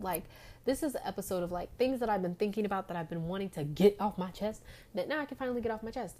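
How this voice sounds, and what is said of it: Talking very fast. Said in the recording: “why am I talking so fast? ... I need to slow down.”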